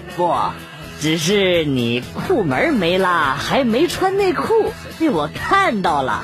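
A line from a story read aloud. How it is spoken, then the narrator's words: Embarrassed laugh, old man. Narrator (Chinese): 老人不好意思的笑了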